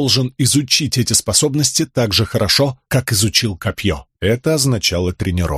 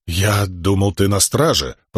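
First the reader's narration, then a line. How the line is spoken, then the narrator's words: Grumbling. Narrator (Russian): проворчал Тефт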